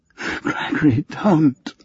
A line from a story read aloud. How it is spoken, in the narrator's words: she moaned